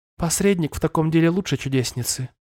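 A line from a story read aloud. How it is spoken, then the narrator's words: Soft honeyed objection. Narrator (Russian): мягко возразила медовым голосом Рангрид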